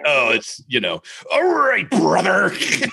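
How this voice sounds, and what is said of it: Imitates a wrestler's voice. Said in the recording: “your impression”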